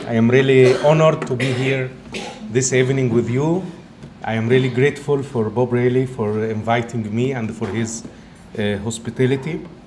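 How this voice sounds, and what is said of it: Egyptian accent mixed with Italian. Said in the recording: “excuse me for my English at the beginning because it's not the strong Egyptian accent, but it's also combined by an Italian accent.”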